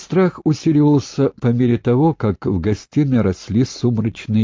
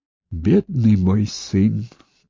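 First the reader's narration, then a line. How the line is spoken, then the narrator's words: Whisper. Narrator (Russian): прошептала она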